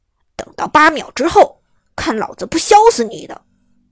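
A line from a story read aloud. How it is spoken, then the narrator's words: Angry. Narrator (Chinese): 大锤愤怒地说道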